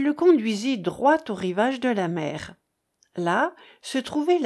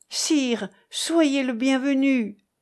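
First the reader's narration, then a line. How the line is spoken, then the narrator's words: Exclaiming together. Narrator (French): s'écrièrent les deux chevaliers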